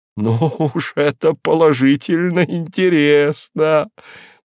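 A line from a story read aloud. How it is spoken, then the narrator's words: Shaking with laughter. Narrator (Russian): трясясь от хохота, проговорил профессор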